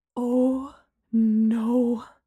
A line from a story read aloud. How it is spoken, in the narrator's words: Gemma breathed